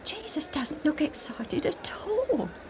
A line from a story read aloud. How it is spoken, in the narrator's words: Alf whispered to Joe